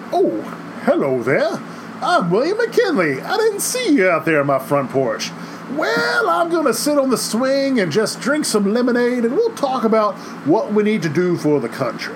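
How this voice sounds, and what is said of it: Put-on Ohio accent, Southern sheriff-like. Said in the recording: “let's see if I can do these voices ... That's my attempt at a Ohio accent, which mainly sounds like a old Southern sheriff”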